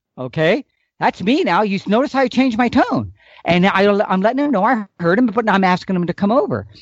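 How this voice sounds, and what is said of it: Usual voice. Nothing is said of it.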